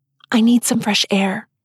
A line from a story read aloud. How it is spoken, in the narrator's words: I whisper to Abel